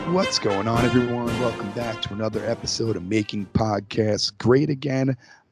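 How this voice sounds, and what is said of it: Congested voice from a cold. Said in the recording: “I have a little cold. That's why I sound so horrible.”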